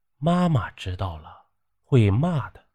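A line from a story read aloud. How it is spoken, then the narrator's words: Child speaking quietly. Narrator (Chinese): 小孩低声的说道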